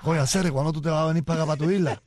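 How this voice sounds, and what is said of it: Put-on Cuban Spanish accent. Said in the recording (Spanish): “Él es cubano. Él me dice, con ese acento de, ¿sabes?”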